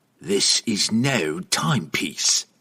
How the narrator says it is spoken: the assassin roughly explained

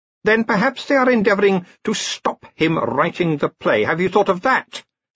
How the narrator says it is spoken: snapped the Queen

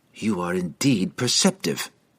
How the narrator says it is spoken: she snarled at Entreri

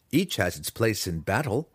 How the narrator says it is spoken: he replied

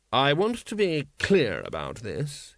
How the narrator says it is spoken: he said coldly

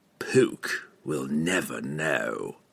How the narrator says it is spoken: and Treri hissed back

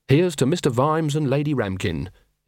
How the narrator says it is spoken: in a clear, sincere voice

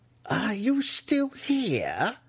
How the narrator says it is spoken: Malice shrieked at him

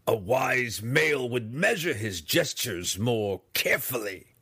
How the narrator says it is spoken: Breeza snarled aloud

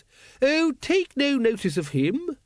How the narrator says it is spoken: said cheerfully

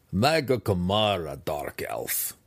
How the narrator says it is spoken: the deep gnome chuckled

